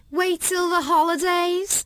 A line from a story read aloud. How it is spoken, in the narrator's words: Kim said loudly